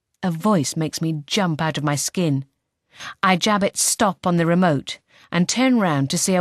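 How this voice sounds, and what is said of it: Usual voice. Nothing is said of it.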